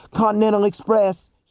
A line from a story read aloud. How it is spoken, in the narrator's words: cried, now separated from his own voice by what felt like miles